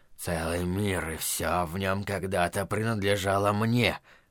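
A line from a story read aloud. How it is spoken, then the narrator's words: Mumbling tiger. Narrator (Russian): бормотал тигр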